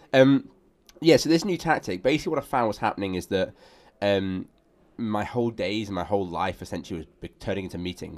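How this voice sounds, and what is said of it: Sick, congested-sounding voice. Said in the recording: “I sound like a ridiculous man today. I feel very ill, very, very ill ... thinking it's not even ... talking today, it's just someone else”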